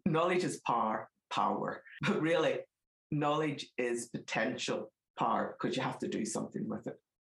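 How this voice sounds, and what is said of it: Northern Irish accent. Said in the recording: “my Northern Ireland accent might come out here”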